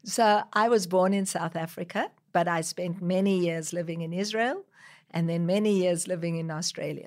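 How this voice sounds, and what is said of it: South African-Australian accent. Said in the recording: “Now, that's interesting accent ... when I go back to South Africa, people think I'm an Australian. Here, people pick up that there's an accent”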